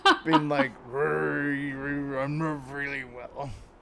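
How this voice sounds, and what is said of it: Imitates a horror movie character's voice. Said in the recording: “I'm trying to do my best Castle Freak impression ... That's pretty good. No, that was pretty good.”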